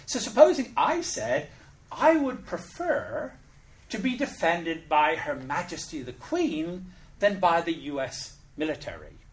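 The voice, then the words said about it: British accent. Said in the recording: “I'm British. I'm very keen to keep my British accent”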